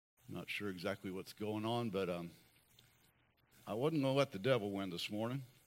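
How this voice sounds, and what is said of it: Hoarse voice. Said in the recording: “I sound a little hoarse, it's only because I am.”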